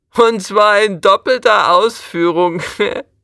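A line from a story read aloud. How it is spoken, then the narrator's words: Called out. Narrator (German): ruft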